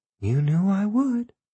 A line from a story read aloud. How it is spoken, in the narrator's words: she murmured